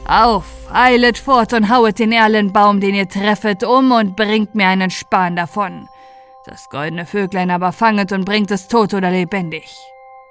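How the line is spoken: Calling out. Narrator (German): rief

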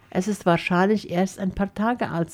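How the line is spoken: Plain. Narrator (German): sagte er

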